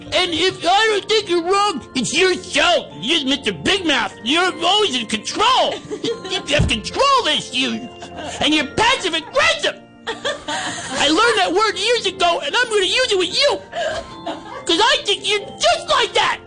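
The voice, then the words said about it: Imitates another person's voice. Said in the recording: “That was my Sarah impression.”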